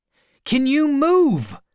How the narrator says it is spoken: I shouted

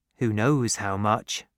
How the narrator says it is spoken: he said

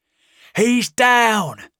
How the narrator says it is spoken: shouted a man

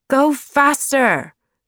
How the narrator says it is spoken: shouted Jeremiah

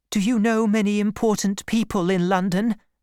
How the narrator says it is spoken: asked nervously

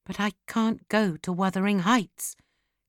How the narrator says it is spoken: Kathy whispered

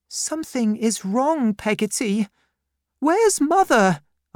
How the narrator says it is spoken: cried

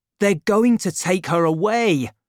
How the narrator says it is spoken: D'Artagnan cried to Planchet

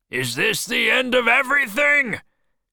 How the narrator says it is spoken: cried Ahab

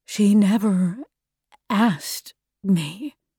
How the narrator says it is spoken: he said quietly

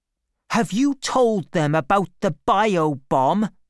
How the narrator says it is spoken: She asked Artemis angrily

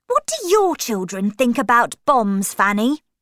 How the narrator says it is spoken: Linda said crossly

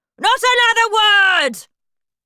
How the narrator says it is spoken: shouted Miss Trunchbull

